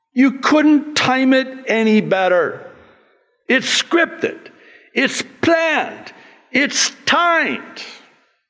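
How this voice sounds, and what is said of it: Yelling, loud agitated speech. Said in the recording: “sorry I'm yelling.”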